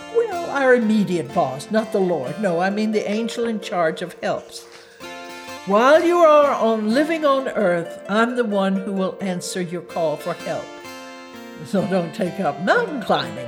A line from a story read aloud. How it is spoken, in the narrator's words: laughed